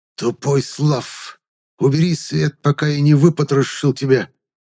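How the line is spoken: Angry hiss from offstage. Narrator (Russian): раздалось злобное шипение из-за угла

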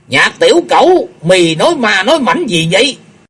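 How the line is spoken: Suspicious old man shouting. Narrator (Vietnamese): Mình đâu cũng thấy khả nghi, lão hét lớn

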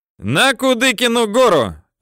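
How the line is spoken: Mischievous yelling. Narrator (Russian): озорно орал им Юрка

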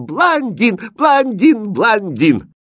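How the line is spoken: Delighted shouting. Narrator (Russian): Золотистые кудри Хрустальда так понравились принцессе, что она опять захлопала в ладоши и закричала

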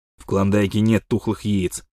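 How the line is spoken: Child snorting. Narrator (Russian): фыркнул малыш

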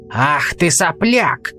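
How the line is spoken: Roaring. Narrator (Russian): взревел он

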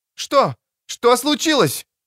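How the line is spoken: Alarmed shout. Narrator (Russian): закричала Биквин

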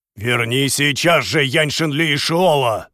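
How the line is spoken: Angry shout. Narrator (Russian): гневно выкрикнул генерал

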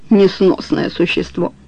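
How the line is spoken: Calm. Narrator (Russian): произнес спокойно

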